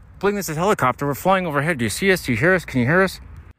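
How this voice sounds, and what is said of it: Helicopter pilot radio voice. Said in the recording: “So I can do the voices sometimes. That's a new one. It's called Helicopter Pilot.”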